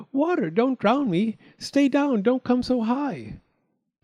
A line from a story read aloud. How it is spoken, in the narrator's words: Little Half-Chick cried out